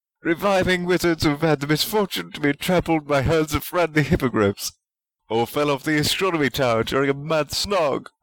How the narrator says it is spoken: cried Dean

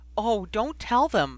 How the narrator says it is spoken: Jenny pleaded

